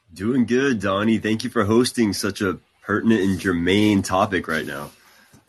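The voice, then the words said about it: Strong radio voice. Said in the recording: “You have a very strong radio voice.”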